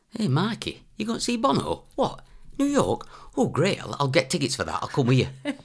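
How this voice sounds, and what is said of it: Imitates another person's accent. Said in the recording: “Will you do the accent?”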